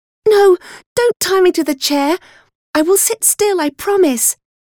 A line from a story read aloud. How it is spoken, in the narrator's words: I cried out